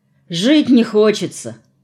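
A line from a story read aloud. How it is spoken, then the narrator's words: Dejected explanation. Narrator (Russian): уныло пояснил Виталий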